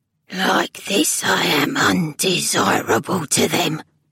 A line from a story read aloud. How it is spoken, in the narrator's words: croaked the figure